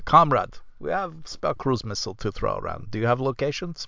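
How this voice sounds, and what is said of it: Put-on Russian accent. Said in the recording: “a good there Russian was, like, accent”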